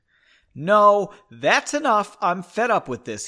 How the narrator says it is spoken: he said loudly

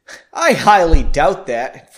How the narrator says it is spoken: Frederick laughed

